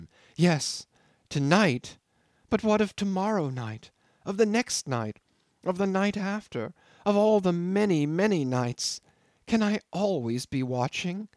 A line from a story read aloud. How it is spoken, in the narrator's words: A sobbing catch of her breath